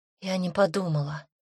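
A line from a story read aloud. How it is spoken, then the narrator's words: Young woman's whisper. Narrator (Russian): шепнула девушка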